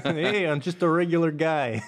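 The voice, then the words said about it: Put-on Chicago accent. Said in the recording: “There's that accent. ... that one was Chicago coming out.”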